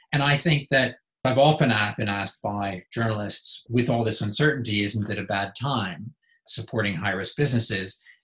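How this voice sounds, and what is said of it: American accent. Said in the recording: “You can tell from my accent, I'm from the US.”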